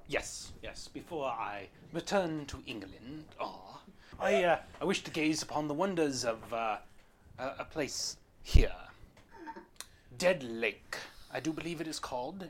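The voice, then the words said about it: Put-on British or Irish accent. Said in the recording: “Are you Irish? ... Put that accent on a leash. ... that's a pretty decent accent. Way better than what I could come up with.”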